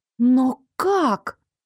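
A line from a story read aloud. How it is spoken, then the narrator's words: Confused muttering. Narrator (Russian): Растерянно забормотала я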